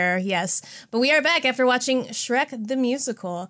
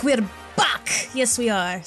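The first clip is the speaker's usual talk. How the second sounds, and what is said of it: Put-on Scottish brogue. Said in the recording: “your Scottish accent ... My approximation of a Shrek brogue”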